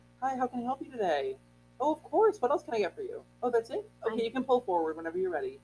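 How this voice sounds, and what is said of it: Cheerful customer service voice. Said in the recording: “I have a really good customer service voice.”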